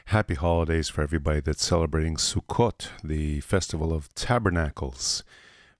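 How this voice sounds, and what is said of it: Voice sounds sick and strained. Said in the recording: “My voice is a little bit under the weather today”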